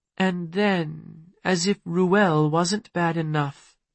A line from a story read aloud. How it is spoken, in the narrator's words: Nix said sadly